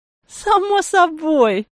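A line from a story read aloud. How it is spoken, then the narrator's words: Grandmother laughing. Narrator (Russian): засмеялась бабушка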